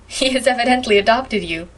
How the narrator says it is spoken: laughed Priscilla

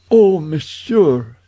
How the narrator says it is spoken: she cried

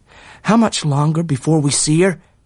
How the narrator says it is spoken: asked Tom uneasily

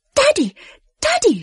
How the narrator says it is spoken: shrieked Moon

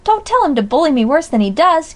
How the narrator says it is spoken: cried Pickering

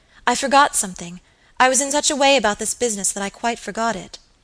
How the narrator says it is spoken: exclaimed Phoebe suddenly

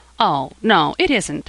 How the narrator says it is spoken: said Jasper, smiling brightly

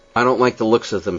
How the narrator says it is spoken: said I

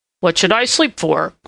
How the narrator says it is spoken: grumbled Prickly Porky

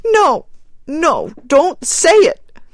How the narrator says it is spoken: cried the woman wildly

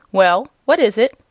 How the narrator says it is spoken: asked the rabbit sharply

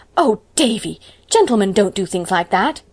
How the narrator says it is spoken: Anne promptly exclaimed with her best schoolma'am air

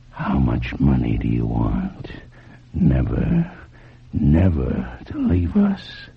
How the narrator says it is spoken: whispered

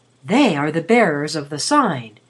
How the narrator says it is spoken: said rather softly

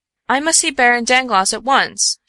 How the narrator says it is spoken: she cried in English

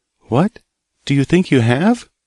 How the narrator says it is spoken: cried the little girl

